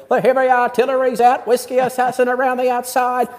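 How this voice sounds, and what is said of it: Imitates a race caller's voice. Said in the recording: “a great impression there. You did a nice job.”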